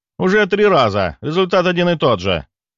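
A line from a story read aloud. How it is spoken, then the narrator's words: Snapped back. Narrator (Russian): огрызнулся оператор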